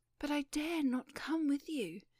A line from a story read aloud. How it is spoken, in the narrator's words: cried the young lady